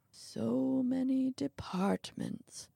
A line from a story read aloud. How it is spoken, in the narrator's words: the old man mumbled